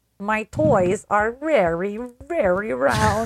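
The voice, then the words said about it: Put-on Russian accent. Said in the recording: “one has ever done a good Russian accent ... It's easy to do a bad one. It's hard to do a good one ... everyone on this call ... has to do one”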